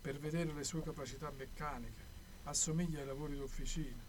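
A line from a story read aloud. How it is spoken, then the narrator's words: Calm level voice. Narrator (Italian): viene spiegato con voce piana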